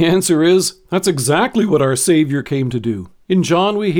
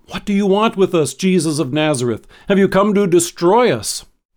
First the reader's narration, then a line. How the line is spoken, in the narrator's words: He cried out